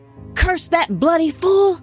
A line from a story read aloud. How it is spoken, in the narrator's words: one of the scouts shouted, coughing